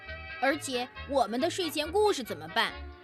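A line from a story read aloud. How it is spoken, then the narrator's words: Plain. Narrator (Chinese): 熊妈妈说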